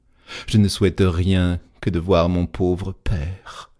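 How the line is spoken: Sighing. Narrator (French): dit-elle en soupirant

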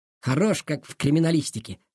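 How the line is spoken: Wry snort. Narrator (Russian): хмыкнул Долгов

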